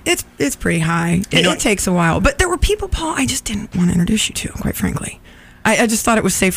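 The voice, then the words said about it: Whispering. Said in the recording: “Why are you whispering? ... 50,000 watt transmitter and you're whispering. ... That's why I was whispering.”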